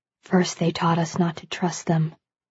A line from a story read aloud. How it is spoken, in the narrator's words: he whispers